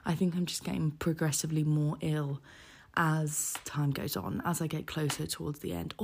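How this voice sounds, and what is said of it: Hoarse, sore-throated voice. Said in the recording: “My throat is not getting better. I actually think it's getting progressively worse... my voice sounds so horrific”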